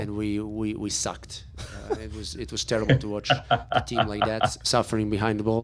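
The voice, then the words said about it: Accented English, emphatic stuttered delivery. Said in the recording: “I don't know if it's his accent that makes that so good ... the accent just makes that so good. He hits it so hard. He like built up to it. He kind of stuttered the we sucked”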